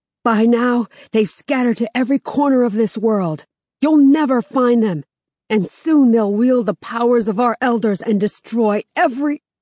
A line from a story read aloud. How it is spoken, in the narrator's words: His nostrils flare as he shouts